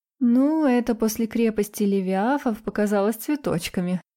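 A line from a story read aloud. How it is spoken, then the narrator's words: Laughing. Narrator (Russian): рассмеялась я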